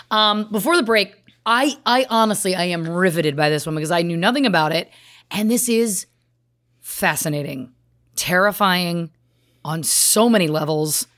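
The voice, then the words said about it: Hoarse, strained voice. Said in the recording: “my voice, I'm losing my voice again”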